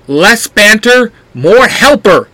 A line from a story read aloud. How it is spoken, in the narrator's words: Black Ranger shouts